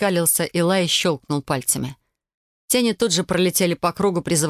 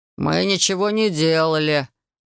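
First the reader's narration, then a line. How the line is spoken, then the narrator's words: Deep bass voice. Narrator (Russian): басом выдал кореглазый Вейл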